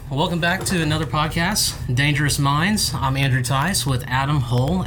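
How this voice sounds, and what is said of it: Polished broadcast-style podcast voice. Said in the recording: “he has like the most amazing podcast voice”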